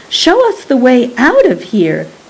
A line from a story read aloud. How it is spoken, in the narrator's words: cried Rosie